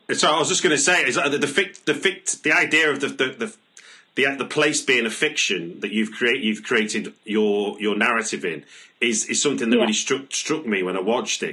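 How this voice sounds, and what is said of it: Manchester English accent. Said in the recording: “as you can probably tell from my accent, I'm from Manchester”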